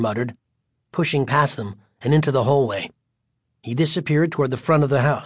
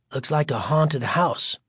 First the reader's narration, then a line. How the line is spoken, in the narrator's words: Greg said softly